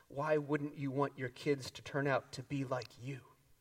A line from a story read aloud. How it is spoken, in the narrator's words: she said